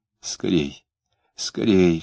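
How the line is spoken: Whispering. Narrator (Russian): шептала она

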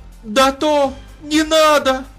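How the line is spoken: Shout. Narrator (Russian): закричала Наташа

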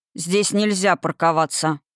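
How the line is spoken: Stern. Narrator (Russian): строго сказал он

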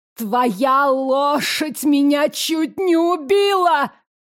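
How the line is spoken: Old woman's shriek. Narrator (Russian): завизжала старушка

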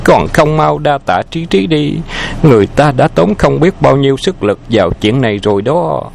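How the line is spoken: Giggling. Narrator (Vietnamese): Liễu Thanh cười khúc khích nói

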